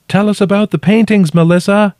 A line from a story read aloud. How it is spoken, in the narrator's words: I shouted